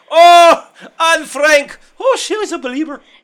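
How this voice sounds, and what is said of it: Put-on Irish accent. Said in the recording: “if I was doing Irish”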